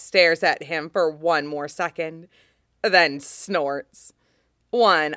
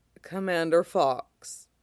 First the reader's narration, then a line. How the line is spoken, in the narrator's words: returns, ever so faintly amused